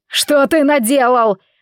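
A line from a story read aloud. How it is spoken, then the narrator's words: Desperate, grief-stricken shout. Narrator (Russian): отчаянно кричал Бенджамин, обращая свое искаженное горем лицо на Алана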